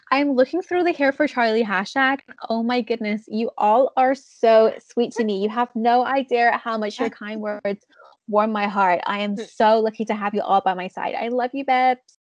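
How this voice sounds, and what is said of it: Mock American accent. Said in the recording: “I'm gonna do it in an American voice because it's even worse.”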